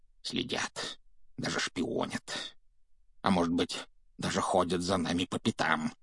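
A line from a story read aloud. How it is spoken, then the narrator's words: Mumbling, near breakdown. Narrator (Russian): пробормотал дядя Вернон, который, кажется, был на грани помешательства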